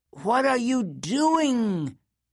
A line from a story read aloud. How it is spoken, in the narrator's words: a woman shrieked